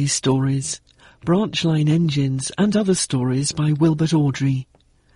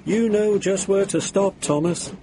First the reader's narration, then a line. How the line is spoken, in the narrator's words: laughed